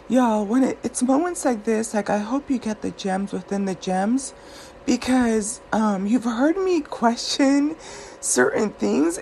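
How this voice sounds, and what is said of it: Sleepy, drowsy voice. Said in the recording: “you can probably still hear the sleep in my voice.”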